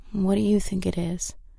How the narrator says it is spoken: Kristen sighed

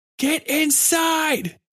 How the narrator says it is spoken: he yelled

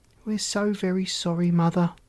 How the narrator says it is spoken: said Glitter

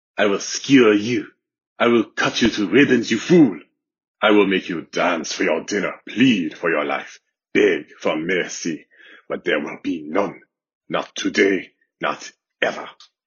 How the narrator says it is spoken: he said in his best mocking French accent

